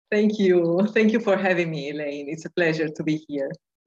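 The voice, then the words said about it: Soothing foreign accent. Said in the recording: “I just love your accent. I think I should just let the recording go and you can just talk and send us all to sleep.”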